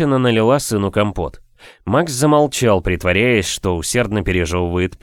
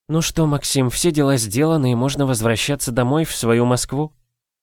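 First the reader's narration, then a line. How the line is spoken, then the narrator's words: Sighing. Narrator (Russian): Она вздохнула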